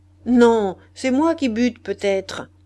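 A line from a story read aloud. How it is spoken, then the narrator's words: Grumbled through teeth. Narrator (French): grommelai-je entre mes dents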